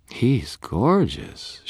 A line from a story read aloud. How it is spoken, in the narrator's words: purred